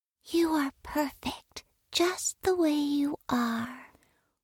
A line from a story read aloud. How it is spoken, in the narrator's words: She felt sorry for him and would often whisper in his ear